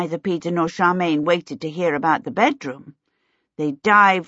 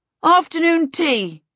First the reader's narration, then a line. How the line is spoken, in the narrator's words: he shouted